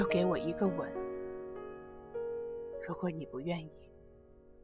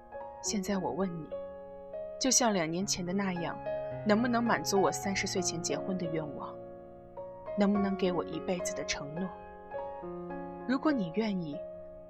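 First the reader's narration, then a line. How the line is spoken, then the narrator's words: Sighing. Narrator (Chinese): 南太贤叹了口气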